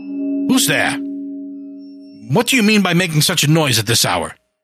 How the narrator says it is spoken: demanded irritably

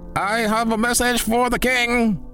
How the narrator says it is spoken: bellowed

